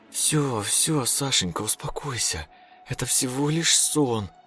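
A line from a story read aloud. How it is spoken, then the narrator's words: Soft whisper. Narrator (Russian): мягко прошептала жена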